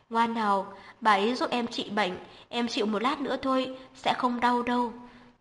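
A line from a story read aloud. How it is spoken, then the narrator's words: Gentle, soothing. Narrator (Vietnamese): Hắn ôn nhu trấn an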